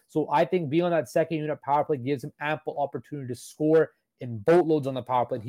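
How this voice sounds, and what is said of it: Sore, strained voice. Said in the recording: “my voice is kind of sore right now”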